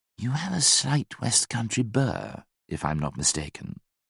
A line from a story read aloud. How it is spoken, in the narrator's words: he whispered